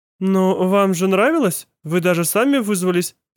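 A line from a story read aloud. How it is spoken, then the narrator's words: Confused teacher. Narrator (Russian): сказала растерянно преподавательница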